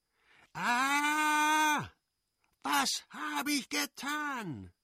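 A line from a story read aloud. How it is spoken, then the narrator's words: Shouted. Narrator (German): schrie er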